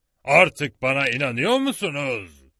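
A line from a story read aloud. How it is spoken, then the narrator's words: Shout. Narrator (Turkish): diye bağırdı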